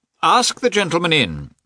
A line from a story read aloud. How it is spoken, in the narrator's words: he said in a loud voice